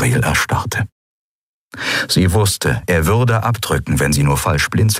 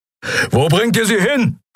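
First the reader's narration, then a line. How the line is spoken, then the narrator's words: Roared. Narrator (German): brüllte Keru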